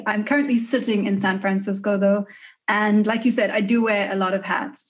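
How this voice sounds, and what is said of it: South African accent. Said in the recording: “I don't know if you can hear from the accent, but I'm from South Africa originally.”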